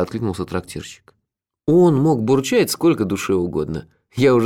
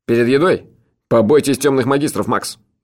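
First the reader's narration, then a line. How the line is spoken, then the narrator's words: Said sternly. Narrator (Russian): строго сказал хозяин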